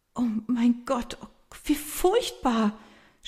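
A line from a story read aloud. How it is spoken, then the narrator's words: Helpless stammering. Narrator (German): stammelt sie hilflos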